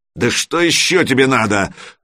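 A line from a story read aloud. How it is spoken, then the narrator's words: Roaring. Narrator (Russian): взревел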